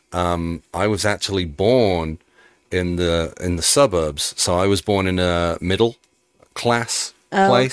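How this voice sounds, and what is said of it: Birmingham English accent. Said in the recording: “you have the Peaky Blinders accent ... Peaky Blinders is set in Birmingham”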